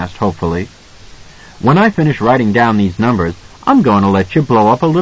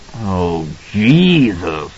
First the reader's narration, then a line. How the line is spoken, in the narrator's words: Halloran moaned